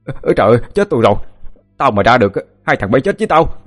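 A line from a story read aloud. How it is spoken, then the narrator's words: Panicked struggling scream. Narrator (Vietnamese): Cậu hai giãy giụa vừa la lên thất thanh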